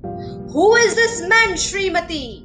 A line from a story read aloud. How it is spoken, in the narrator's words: the king thundered